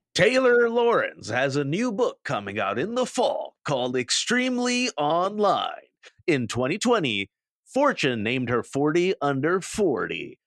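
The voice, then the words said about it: Movie announcer voice. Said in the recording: “your movie phone voice ... do my movie phone voice”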